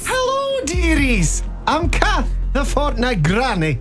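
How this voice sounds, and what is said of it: Poorly done Scottish accent. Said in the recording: “Terrible Scottish accent.”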